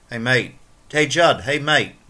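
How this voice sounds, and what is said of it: Poor attempted British accent. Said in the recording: “I don't think I'm going to try the British accent ... Now, that sucked.”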